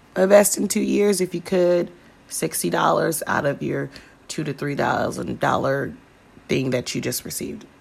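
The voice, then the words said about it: Hoarse voice. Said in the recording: “I don't know why my voice sounds so hoarse”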